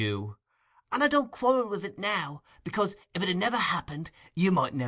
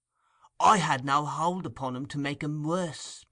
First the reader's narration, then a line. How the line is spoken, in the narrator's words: pursued the Jew, anxiously